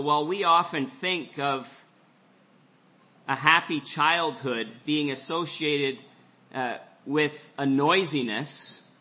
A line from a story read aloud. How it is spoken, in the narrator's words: he said